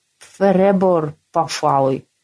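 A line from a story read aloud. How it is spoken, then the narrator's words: Lisping monster. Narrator (Russian): прошепелявило чудище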